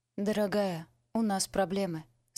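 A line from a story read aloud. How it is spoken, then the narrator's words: Calm. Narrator (Russian): спокойно сказала она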